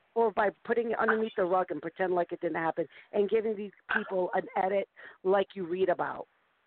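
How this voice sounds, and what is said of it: East Coast American accent. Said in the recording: “East Coast. ... that's just my accent.”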